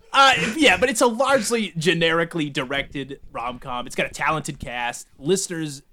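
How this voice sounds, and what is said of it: New England accent. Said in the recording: “he's got a stupid New England accent. ... His New England accent is dumb.”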